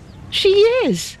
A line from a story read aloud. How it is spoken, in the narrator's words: fiercely